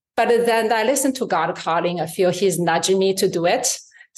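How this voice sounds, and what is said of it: Non-native English accent. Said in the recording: “I'm not even born here. So my accent and my English”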